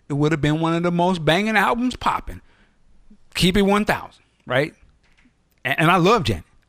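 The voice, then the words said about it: Preacher-like sermonizing delivery. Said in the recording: “preacher voice”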